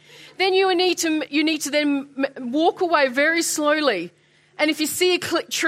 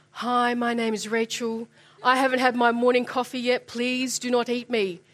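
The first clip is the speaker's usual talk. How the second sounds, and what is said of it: Very gentle, soft voice. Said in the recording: “talk to the bear in a very gentle voice”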